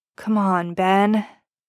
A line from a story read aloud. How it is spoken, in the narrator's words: Poe sighs